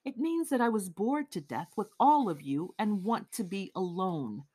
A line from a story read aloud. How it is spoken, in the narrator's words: Raskolnikov replied calmly